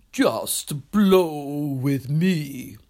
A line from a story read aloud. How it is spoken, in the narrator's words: said the rhino in his deep, rich voice